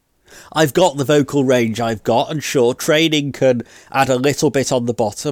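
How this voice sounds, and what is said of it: Congested voice from a cold. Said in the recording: “today I've got a cold, so it sounds a bit different”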